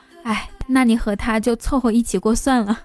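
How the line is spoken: Long sigh. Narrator (Chinese): 我妈就会长叹一声说

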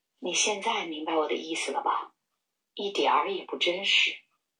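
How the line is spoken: Soft murmur. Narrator (Chinese): 班特里夫人喃喃地轻声说道

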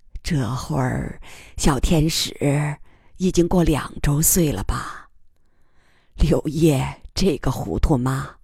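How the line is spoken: Murmuring. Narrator (Chinese): 天乐妈喃喃地说

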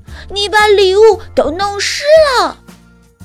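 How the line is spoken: Shouting. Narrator (Chinese): 盖瑞大喊

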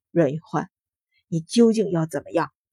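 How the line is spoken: Cold sneer, flat. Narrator (Chinese): 阮云欢冷笑，淡道

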